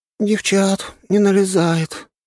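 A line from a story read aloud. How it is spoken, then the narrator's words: Sad sigh. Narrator (Russian): грустно вздохнула одна из белых дриад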